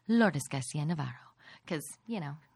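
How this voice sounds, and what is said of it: Mock NPR radio announcer voice. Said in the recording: “That's my NPR voice. ... It was beautiful. ... It's mostly my hungover voice. ... A nice hungover voice.”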